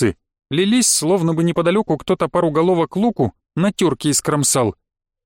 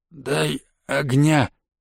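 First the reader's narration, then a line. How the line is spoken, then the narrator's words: Strained, forced out. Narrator (Russian): выдавил кое-как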